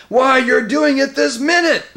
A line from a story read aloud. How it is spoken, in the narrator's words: bellowed Trumpkin